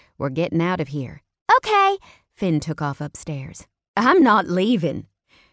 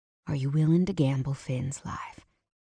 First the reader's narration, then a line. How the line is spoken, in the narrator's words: I asked, keeping my voice quiet so Finn couldn't hear